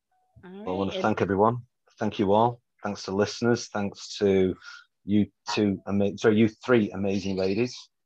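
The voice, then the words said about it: British accent. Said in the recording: “That beautiful accent ... I've got a limey accent.”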